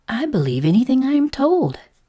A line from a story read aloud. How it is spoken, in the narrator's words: said the caterpillar hastily